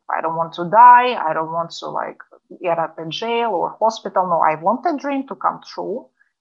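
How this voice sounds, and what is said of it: Russian accent. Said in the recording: “with her accent, she is actually from Russia, originally from Moscow”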